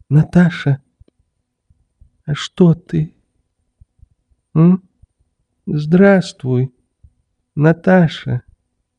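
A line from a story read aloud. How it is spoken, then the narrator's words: Timid, frightened. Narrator (Russian): Робко проговорил, с каким-то испугом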